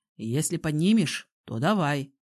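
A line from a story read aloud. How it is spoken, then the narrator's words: Snorting. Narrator (Russian): хмыкнул Илья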